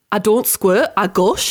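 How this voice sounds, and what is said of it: Put-on Geordie accent. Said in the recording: “I've discovered my one for Geordie, which is really difficult. Is it a hard accent for us Southerners to do? Is a quote from Geordie Shaw.”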